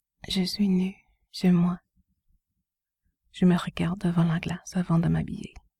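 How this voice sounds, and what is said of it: Non-native French accent. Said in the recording (French): “Veuillez excuser mon accent, je ne suis pas française.”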